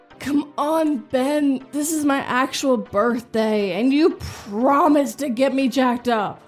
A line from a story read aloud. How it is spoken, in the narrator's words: I yelled into the deserted double wide